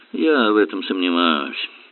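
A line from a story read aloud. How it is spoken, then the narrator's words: Muttered. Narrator (Russian): Эллери пробормотал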